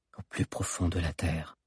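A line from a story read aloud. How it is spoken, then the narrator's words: Murmured. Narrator (French): murmura Zizo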